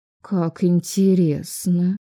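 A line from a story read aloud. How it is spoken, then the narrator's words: Drawling mother. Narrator (Russian): протянула мама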